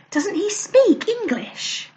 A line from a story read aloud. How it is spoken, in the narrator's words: whispered Lou